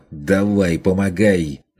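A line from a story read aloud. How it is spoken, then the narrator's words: Shouted. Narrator (Russian): заорал на него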